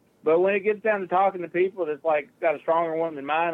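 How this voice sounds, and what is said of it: Country Southern accent. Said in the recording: “my country accent”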